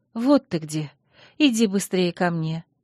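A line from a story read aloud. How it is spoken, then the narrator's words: Gentle call. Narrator (Russian): мягко позвала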